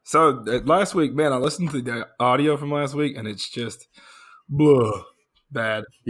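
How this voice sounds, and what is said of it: Weak, hoarse, nearly lost voice. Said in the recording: “my voice has been gone... they couldn't hear me... you sound like shit... My voice is just gone... You don't sound fine.”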